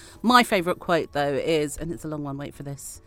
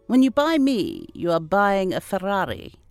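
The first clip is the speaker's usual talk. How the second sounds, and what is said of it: Put-on Swedish accent. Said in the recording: “I don't know why I put on that accent ... Swedish.”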